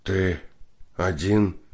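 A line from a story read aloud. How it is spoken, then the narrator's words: Question, then wheezing. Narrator (Russian): спросил и захрипел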